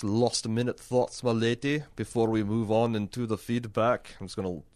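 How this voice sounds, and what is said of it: Unidentifiable put-on accent. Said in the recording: “I don't know what accent that was.”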